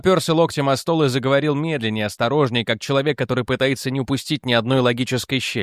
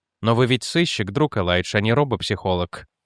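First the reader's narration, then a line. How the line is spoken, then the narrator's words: Gentle reminder. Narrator (Russian): мягко напомнил Дэниел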